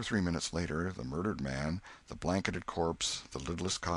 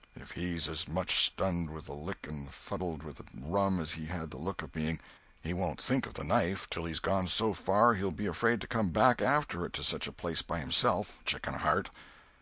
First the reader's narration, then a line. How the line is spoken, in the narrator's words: He muttered